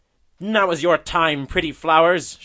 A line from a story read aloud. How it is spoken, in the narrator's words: shouted he